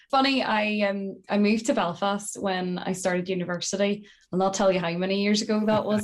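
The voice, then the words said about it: Northern Irish County Tyrone accent. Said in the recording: “I'm getting wee hints and glints of, you know, a County Tyrone accent ... I consider my accent to be a bit of a mix. There's definitely a lot of Tyrone in there”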